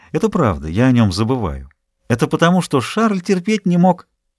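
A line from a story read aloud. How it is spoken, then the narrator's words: Cheerful reply. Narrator (Russian): Молодая женщина весело ответила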